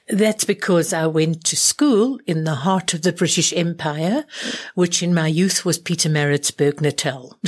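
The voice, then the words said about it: Refined British-influenced South African accent. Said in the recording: “I hear your accent's quite refined.”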